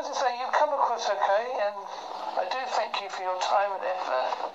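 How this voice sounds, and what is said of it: Strong accent, deliberately slowed speech. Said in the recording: “I spoke a little bit slower for you, because I know my accent can come across a bit strong ... I slowed it down”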